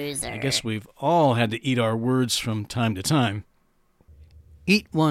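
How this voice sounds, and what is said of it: Usual voice. Nothing is said of it.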